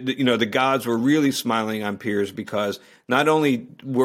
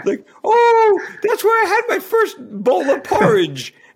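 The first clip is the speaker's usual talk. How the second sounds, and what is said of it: Attempted posh British accent. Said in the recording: “I can't do a British accent ... you sound like the Queen ... You sound like a Smurf”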